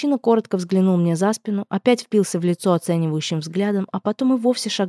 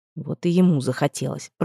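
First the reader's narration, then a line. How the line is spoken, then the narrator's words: Sullen grumble. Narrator (Russian): пробурчал угрюмо Ноан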